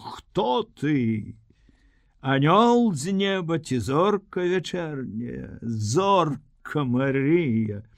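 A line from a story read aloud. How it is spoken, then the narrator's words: Laughing, unexpected recitation. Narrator (Belarusian): Ён засмеяўся і нечакана прачытаў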